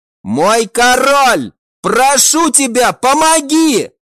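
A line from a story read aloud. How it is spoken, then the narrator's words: Cried out. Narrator (Russian): прокричала она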